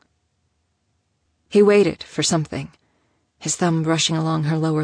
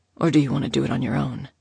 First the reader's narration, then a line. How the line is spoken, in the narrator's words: He whispered